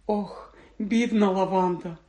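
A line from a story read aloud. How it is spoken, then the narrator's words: Sighing. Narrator (Ukrainian): зітхнула Герміона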